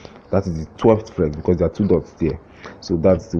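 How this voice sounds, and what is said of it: Usual voice. Nothing is said of it.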